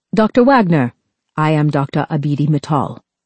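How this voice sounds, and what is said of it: Clipped British-sounding accent. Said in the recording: “in a clipped, British-sounding accent.”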